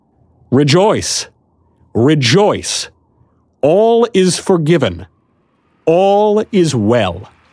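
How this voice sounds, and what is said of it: Loud, raised proclaiming voice. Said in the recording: “I raised my voice again so that the whole crowd could hear me ... louder I added”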